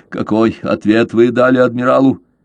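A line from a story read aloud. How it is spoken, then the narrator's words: Restrained question. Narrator (Russian): Каузак взяв себя в руки, спросил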